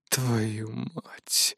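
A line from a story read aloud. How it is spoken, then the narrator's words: Angry exhaled curse. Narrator (Russian): злобно выдохнул Невзоров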